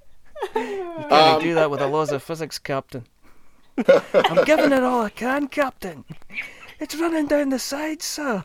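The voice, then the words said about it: Good imitation of a character's accent. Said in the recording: “the accent is very good ... the accent is really fun.”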